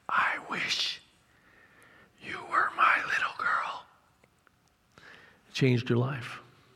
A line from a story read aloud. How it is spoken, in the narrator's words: Leonard said in a whisper